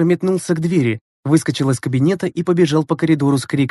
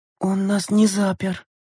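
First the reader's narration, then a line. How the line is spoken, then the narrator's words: Whisper. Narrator (Russian): прошептала Лена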